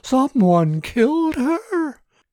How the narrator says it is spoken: Candace shrieked

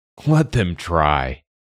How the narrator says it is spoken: laughed a red-haired man

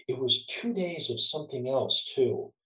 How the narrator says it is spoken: he said quietly

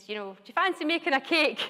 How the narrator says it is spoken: shouted through to the kitchen to his wife and said

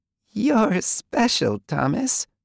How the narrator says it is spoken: the fairy said, the giggle tainting each word

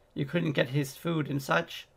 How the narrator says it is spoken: gently

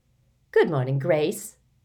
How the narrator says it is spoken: she says cheerfully

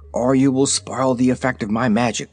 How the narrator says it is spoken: he whispered to them

